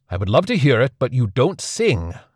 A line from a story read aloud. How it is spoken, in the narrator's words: Celtorus snapped